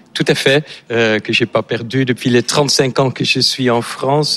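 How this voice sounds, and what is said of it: Slight Dutch accent in French. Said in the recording (French): “vous avez un léger accent ... Je suis néerlandais”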